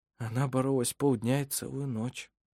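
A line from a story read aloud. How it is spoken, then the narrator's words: Quiet reply. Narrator (Russian): тихо ответил Вассар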